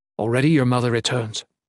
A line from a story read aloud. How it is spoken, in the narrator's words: he said